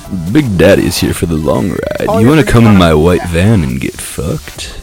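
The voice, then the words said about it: Creepy radio-announcer style voice. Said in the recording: “my stupid voice is supposed to be like, radio announcer or a pervert”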